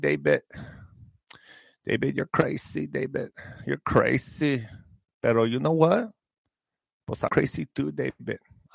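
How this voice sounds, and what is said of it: Imitates another person's voice. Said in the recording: “my impression”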